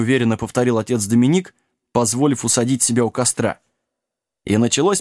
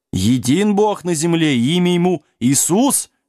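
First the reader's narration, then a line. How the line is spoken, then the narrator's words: Howled. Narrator (Russian): взвыл монах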